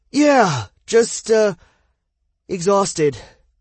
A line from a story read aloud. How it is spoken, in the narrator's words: Adam panted